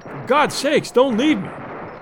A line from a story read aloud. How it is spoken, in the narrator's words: He cried out